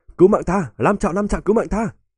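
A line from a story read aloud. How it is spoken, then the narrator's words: Frightened whisper. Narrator (Vietnamese): lòng tràn đầy sợ hãi, không tự chủ được thì thầm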